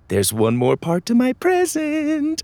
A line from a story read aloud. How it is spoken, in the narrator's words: Lydia said excitedly